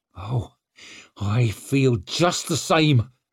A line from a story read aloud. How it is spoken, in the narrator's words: she snarled, showing him a glimpse of the fury she kept burning